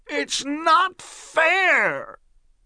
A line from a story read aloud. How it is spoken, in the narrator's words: his face turned red, and he screamed at the top of his voice